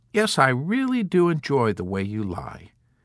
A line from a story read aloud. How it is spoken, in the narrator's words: Colonel Korn answered